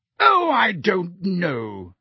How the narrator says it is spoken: said Madame Bones in her booming voice

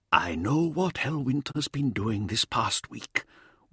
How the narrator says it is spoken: Weirdmake whispered to him

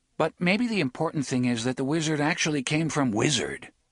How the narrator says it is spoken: Roland asked sharply

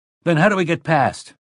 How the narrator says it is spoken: Flaherty cried

